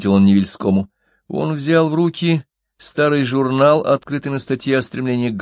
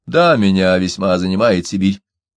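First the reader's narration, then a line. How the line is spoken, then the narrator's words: Cold reply. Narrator (Russian): холодно ответил Невельской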